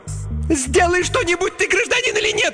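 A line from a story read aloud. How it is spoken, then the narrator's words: Indignant shriek. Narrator (Russian): возмущенно завизжала Инга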